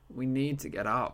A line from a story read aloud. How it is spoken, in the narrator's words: I groaned